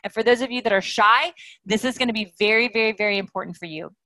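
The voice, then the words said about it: Fast, loud speech. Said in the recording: “I talk a little faster. I talk a little louder. I always talk loud and fast”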